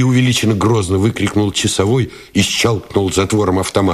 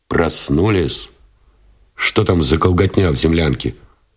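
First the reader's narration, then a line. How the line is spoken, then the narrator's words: Displeased question. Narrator (Russian): спросил Новиков недовольным тоном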